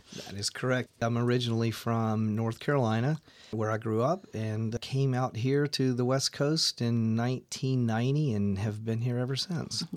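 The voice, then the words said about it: Gentle regional accent. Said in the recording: “with your gentle accent, you perhaps are not a native of Jefferson County”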